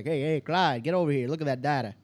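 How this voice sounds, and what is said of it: Put-on New Jersey/New York accent. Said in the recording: “that sounds a lot about New Jersey and New York ... I screw up in those accents”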